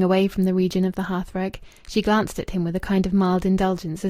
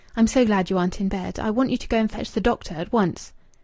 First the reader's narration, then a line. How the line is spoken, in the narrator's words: She replied, speaking quickly and eagerly